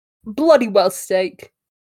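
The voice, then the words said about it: Bad put-on British accent. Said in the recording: “That was a terrible. Bad British accent that I just coughed out.”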